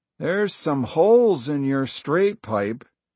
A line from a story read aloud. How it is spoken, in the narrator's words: he said